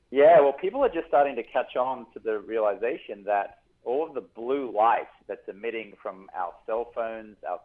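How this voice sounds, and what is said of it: Australian accent. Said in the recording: “I can hear it in that lovely accent”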